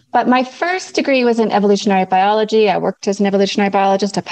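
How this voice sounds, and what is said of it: Mixed Canadian and New Zealand accent. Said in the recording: “my mixed accent, I'm Canadian originally ... I now live in New Zealand, which is sort of why I have this complicated accent”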